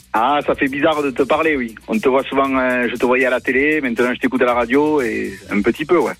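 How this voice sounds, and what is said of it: Singsong southern French accent. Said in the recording (French): “J'entends un petit accent chantant là ... avec cet accent, forcément”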